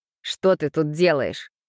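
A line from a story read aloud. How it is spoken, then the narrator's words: Angry question. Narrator (Russian): спросил зло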